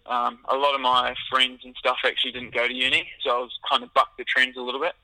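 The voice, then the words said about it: New Zealand accent. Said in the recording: “if you can't pick up on my accent, I'm actually originally from New Zealand”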